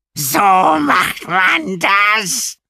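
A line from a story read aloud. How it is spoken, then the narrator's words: Courier shrieking. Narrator (German): kreischte der Kurier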